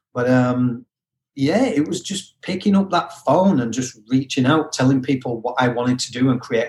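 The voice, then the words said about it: Mixed UK-origin accent. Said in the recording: “my accent being a little bit all over, I am originally from the UK, as everyone can hear.”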